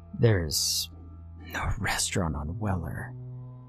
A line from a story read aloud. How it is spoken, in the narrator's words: he murmured